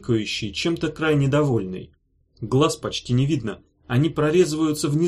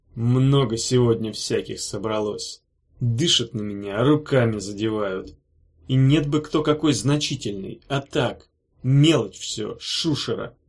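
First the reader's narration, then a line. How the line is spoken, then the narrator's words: Contemptuous, through teeth. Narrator (Russian): процедил Вильгельм, выражая крайнее презрение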